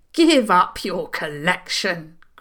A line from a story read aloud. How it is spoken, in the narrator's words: Granny Cavan said fiercely